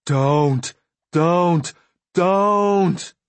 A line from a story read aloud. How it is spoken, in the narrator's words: His voice going higher each time he said the word